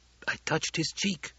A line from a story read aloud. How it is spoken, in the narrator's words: someone whispered